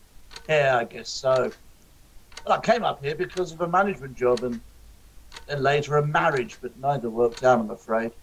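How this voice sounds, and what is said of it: Southern accent. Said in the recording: “You noticed my southern accent. ... It's a dead giveaway.”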